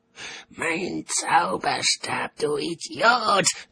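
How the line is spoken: Shrieking. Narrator (German): kreischte Albert

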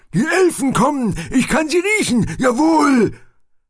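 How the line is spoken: Excited shout. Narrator (German): Aufgeregt ... schrie

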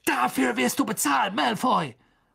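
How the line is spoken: Shout. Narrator (German): schrie

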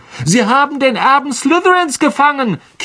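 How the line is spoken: Girl's squeal. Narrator (German): quiekte ein Mädchen am Ravenclaw-Tisch

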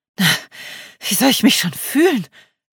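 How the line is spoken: Panting, out of breath. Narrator (German): keuchte sie, sichtlich außer Atem

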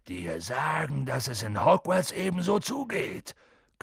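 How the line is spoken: Growling. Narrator (German): knurrte Hagrid

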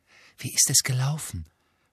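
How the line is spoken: Whispering. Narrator (German): flüsterte Hermine

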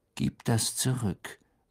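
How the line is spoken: Said calmly. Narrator (German): sagte Harry mit ruhiger Stimme

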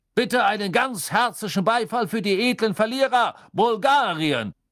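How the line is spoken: Calling out. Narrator (German): rief Backman

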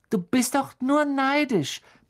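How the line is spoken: Squeaky voice. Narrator (German): piepste Colin

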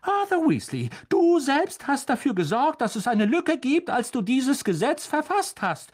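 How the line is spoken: Calling out. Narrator (German): rief Mrs

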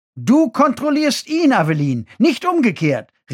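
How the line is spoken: Call. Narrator (German): rief Marshall

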